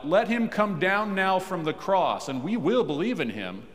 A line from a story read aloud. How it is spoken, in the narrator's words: the unbelieving Jews called out